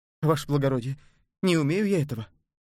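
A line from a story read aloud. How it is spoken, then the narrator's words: Frightened. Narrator (Russian): испуганно сказала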